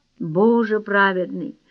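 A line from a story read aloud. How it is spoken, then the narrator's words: Whispered. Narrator (Russian): прошептал Майкл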